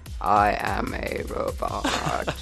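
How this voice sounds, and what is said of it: Sleepy robot voice. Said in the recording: “That was a really bad robot voice. ... No, I thought it was great. A very sleepy robot.”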